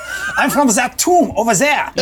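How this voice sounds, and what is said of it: Character voice with an accent. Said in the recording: “Oh, you got an accent.”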